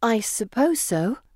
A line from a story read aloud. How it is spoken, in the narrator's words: I say uneasily